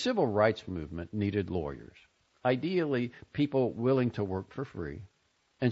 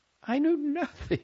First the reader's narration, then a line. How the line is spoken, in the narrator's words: said, laughing